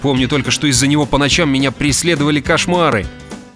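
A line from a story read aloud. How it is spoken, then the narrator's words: Plain. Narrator (Russian): ответил Арнольд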